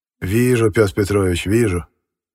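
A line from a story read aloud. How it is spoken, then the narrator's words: Gloomy. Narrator (Russian): мрачно отозвался Бахерев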